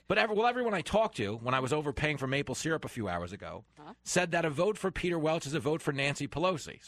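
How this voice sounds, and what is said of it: New York accent. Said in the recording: “I'm a New Yorker. People hear my accent”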